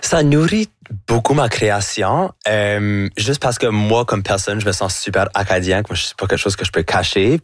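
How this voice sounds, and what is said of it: Acadian French accent. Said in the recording (French): “votre accent acadien”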